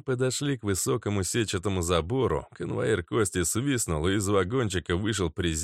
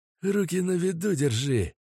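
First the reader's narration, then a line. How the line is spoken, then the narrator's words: Hissing. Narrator (Russian): прошипел мазут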